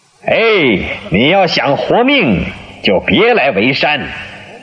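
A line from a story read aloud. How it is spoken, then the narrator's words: Loud shout. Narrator (Chinese): 马谡 大声地说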